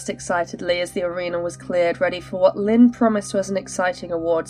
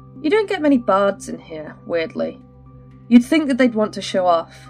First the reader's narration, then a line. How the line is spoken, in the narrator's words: he chuckled